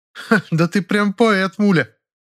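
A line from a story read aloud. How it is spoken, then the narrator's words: Giggling. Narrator (Russian): хихикнула Фаина Георгиевна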